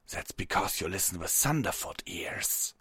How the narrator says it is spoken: the wolven snarled

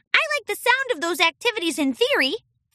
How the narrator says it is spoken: Flora squeaked

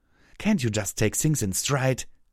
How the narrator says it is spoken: Pyra snapped

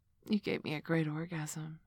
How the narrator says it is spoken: sighed

